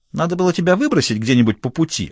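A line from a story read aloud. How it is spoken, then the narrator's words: Snapping panther retort. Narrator (Russian): огрызнулась пантера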